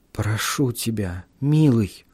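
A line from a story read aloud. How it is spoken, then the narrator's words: Whisper. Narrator (Russian): послышался шепот Элизабет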